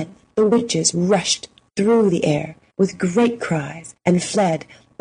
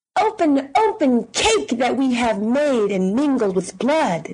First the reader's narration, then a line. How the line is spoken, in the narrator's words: they cried again